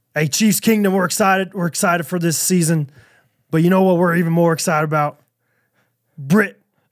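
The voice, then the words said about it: Imitates another person's voice. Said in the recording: “That's pretty good. That's a pretty good Mahomes impersonation.”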